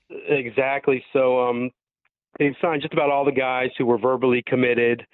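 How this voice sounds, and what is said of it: Sick-sounding voice. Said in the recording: “excuse my voice. I got sick at the perfect time for somebody who does this for a living.”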